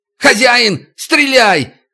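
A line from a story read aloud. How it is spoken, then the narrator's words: Shouting. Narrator (Russian): крикнул Дерюшка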